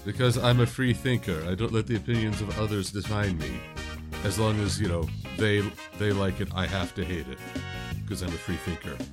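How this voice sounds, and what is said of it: Put-on absurd accent. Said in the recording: “absurd accent”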